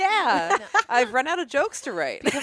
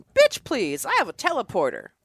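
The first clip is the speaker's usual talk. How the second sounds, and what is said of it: Imitates a starship captain's voice. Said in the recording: “It's my impression of Captain Picard.”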